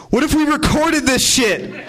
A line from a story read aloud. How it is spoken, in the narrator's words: Ed shouted out of nowhere